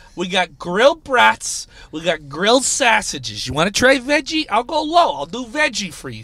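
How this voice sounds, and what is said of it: Regional accent coming through strongly. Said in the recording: “See, my accent's coming out.”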